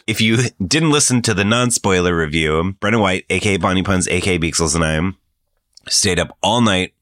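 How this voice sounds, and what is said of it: Gravelly morning voice. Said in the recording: “I don't know why my voice is doing this gravelly thing this morning.”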